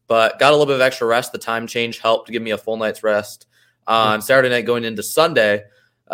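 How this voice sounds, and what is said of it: Deeper than usual, slightly ill voice. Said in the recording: “My voice sounds a little bit deeper than normal. It's already typically pretty deep, but a little under the weather”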